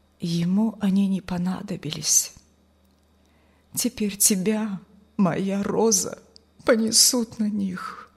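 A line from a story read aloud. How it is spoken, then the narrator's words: Quiet, tearful. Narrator (Russian): пан Николай со слезами на глазах тихо повторил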